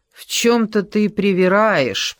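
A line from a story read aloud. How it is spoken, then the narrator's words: Said through gritted teeth. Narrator (Russian): процедила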